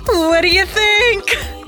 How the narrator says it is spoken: she bellowed

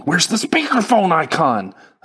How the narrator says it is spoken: I shouted

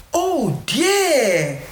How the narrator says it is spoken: cried little Joe

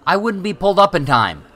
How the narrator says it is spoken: Jamie shouted

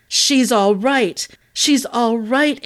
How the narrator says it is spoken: Alex roared

